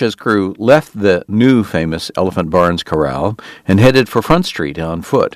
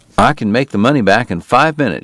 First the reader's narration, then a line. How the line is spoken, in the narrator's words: said